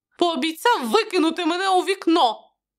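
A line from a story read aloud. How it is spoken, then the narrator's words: Laughing. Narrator (Ukrainian): Мелон засміявся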